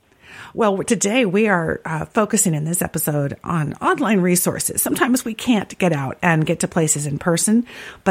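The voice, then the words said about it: Nearly lost, hoarse voice. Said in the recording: “my voice is just about completely gone”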